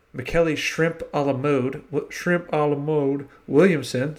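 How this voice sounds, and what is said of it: Bad put-on Southern accent. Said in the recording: “I did the Southern accent again. Still bad”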